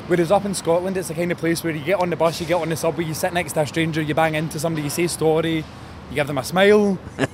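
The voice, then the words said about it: Scottish accent. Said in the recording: “You have a different accent too. ... You have a very different accent.”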